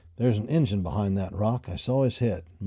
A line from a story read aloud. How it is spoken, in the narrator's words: muttered Cody to himself